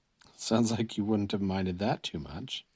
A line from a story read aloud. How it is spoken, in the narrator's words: Chris mumbled